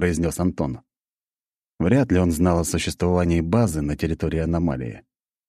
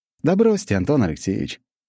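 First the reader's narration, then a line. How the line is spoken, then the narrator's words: Cheerful. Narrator (Russian): весело ответил я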